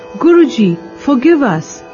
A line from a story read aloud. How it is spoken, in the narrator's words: The boys cried